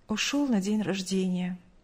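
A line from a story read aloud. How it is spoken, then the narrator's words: Mother's curt, sighing reply. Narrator (Russian): коротко ответила мать, вздохнув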